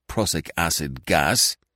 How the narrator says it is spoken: he said bitterly

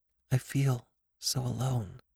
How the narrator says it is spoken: she said very quietly, almost to herself

